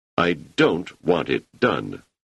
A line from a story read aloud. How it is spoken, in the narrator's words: said Seldon